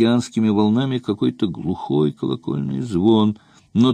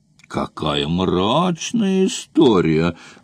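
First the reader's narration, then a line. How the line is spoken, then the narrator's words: Exclamation. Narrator (Russian): воскликнул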